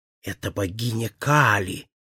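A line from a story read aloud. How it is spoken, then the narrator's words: Whispered. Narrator (Russian): прошептал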